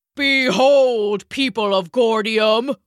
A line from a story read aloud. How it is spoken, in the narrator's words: he bellowed